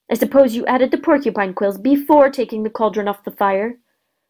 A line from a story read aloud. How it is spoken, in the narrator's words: Neville whimpered